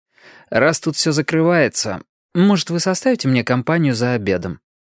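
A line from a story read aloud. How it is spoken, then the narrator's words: Sigh. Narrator (Russian): Мэри вздохнула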